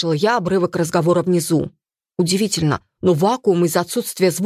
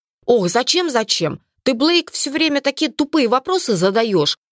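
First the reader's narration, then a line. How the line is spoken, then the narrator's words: Irritated reply. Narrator (Russian): ответил раздраженно второй всадник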